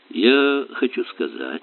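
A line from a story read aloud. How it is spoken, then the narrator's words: Soft. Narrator (Russian): мягко ответил Эллери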